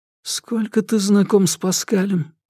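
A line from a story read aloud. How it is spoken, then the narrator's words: Whisper. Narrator (Russian): прошептал Соломон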